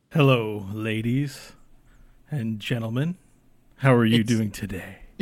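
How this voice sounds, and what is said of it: Polished radio announcer voice. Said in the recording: “He has the most radio voice.”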